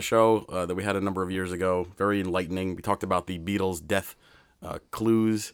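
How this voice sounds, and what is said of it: Unusually deep, off-sounding voice. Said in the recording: “My voice is a little off this week. I'm feeling a little under the weather. ... I was wondering why you sounded like Barry White.”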